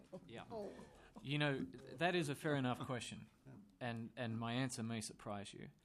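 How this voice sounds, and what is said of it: Speaks with a noticeable accent. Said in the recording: “I love the accent.”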